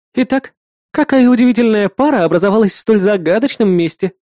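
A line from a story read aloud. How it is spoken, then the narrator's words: Joyful. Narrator (Russian): радостно произнесла напарница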